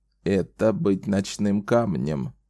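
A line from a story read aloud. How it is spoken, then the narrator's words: Even creaky voice. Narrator (Russian): проговорила Эдди ровным скрипучим голосом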